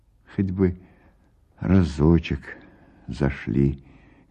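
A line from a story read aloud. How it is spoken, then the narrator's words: Quiet speech. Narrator (Russian): говорит тихо Пелагея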